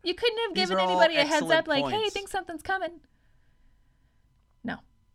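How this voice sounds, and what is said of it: Angry yelling. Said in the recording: “I have to look at you when I'm yelling ... So you can keep your anger up? ... giving you side eye and yelling into the mic”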